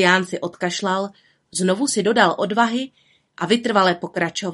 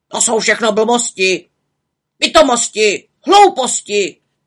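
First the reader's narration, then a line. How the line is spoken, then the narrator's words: Old drake shouting. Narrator (Czech): křičel starý kačer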